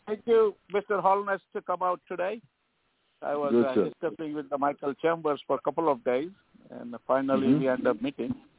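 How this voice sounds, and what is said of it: Indian English accent. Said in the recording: “You can say from my accent and last name, I'm not from Caribbean ... You're Indian.”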